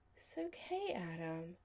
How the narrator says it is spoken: Chris said sleepily

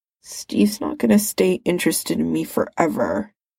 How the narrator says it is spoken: he mumbled instead

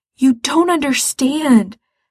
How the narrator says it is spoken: Gerard says desperately

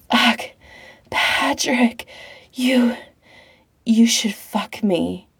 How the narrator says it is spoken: Pete pants, mouth wet and loose

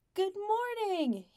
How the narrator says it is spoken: he yells

